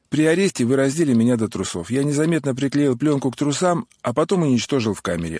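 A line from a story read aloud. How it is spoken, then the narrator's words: Plain. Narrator (Russian): ответил Алексей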